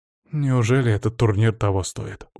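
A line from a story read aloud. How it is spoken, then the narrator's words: Weary sigh. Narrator (Russian): устало вздохнул целитель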